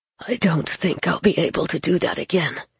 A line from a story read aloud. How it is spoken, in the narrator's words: he said hoarsely to Gabe